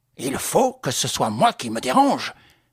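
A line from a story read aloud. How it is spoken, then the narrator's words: Loud exclamation. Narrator (French): s'écria mon père fortement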